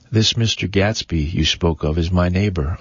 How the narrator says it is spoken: I said

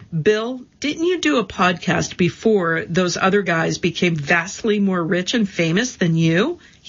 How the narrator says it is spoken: He laughs

